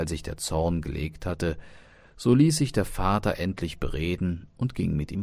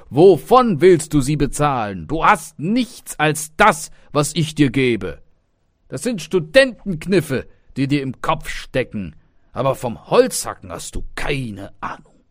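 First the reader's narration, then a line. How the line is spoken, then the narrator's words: Father calling out. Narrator (German): rief der Vater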